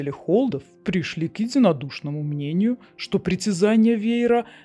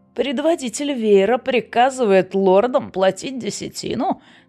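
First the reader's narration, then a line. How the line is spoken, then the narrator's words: Mocking. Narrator (Russian): насмешливо спросил Мерон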